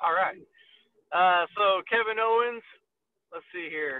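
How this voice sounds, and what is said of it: Usual voice. Nothing is said of it.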